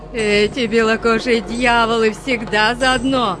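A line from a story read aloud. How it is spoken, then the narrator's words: Screaming. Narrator (Russian): завопила Ския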